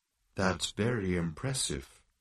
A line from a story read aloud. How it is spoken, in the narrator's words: murmured Marvin